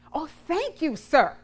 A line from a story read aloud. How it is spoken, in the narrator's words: she exclaimed